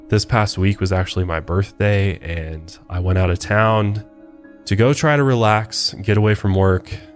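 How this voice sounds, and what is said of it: Congested, stuffy voice. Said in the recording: “hear it in my voice. I sound congested. ... Yeah, you do a little bit.”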